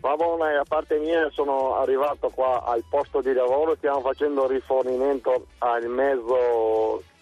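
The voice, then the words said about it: Veneto regional Italian accent. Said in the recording (Italian): “Forse siamo allora, in Veneto dall'accento”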